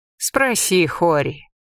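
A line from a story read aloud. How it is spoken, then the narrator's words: Dry. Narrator (Russian): сухо ответила Иса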